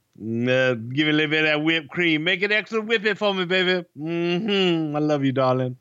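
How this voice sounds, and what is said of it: Imitates another person's voice. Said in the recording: “I'm doing Dusty. It's not a voice. It's motherfucking Dusty Rhodes”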